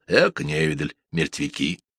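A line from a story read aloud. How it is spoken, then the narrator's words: Grumbling doctor. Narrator (Russian): мужчина в белом халате с докторским пенсне на носу и пробурчал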